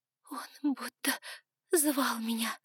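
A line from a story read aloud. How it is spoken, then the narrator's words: Sobbing. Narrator (Russian): всхлипывала она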